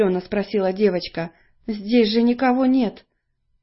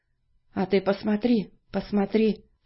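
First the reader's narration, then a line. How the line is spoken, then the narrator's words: Quiet boy's voice. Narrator (Russian): тихо ответил мальчик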